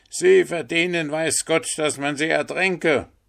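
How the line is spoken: Old man shouting. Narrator (German): schrie der alte Wasserratz

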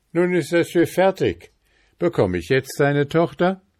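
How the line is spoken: Calling out. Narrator (German): rief

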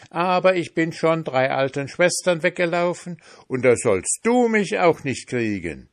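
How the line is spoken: Calling out. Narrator (German): rief der Pfannkuchen

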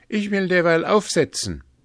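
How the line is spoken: Calling out. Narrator (German): rief er

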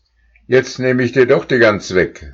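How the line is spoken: Calling out. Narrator (German): rief er

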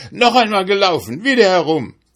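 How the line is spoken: Hare shouting, frantic with eagerness. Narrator (German): Der Hase aber ganz außer sich vor Eifer schrie

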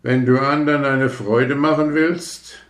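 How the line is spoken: Firework calling out. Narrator (German): rief die römische Kerze

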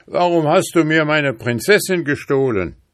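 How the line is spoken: Hunter shouting angrily. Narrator (German): der Jäger ... rief er zornig

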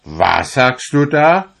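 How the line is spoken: Gentleman shouting. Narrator (German): schrie der Herr

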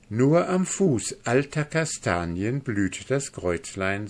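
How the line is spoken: Plain. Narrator (German): sagte Mimi

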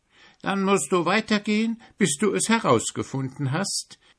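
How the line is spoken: Giggling ant. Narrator (German): kichert die große rote Waldameise

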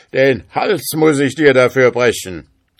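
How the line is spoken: Ghost shouting. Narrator (German): rief der Geist

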